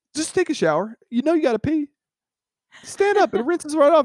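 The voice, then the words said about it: Southern American accent. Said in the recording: “I love when your southern accent comes out on rants such as these.”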